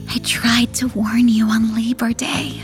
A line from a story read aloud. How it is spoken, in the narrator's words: she whispers